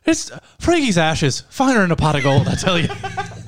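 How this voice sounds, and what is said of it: Put-on Irish accent. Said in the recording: “My only Irish impression”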